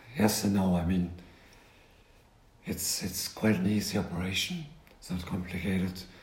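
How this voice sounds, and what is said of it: Impaired, abnormal speaking voice. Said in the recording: “you lost your voice ... you're hoping to have your normal voice back”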